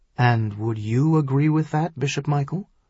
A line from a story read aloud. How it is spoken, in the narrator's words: he asked quietly